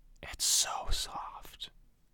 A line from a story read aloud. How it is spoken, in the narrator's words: the girl whispers